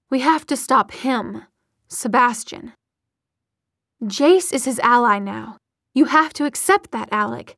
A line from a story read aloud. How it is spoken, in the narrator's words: Magnus said